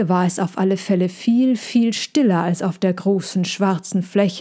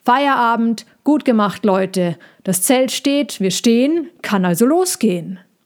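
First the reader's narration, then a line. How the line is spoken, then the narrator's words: Boss shouting very loudly. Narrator (German): rief der Chef sehr laut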